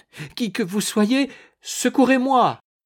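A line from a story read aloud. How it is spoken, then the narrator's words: Trembling cry. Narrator (French): s'écria-t-elle d'une voix tremblante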